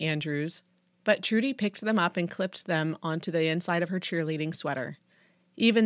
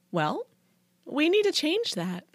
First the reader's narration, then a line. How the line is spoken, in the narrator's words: cooed Trudy